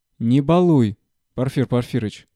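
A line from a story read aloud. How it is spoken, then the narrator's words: Stern remark. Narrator (Russian): строго заметила Татьяна Власьевна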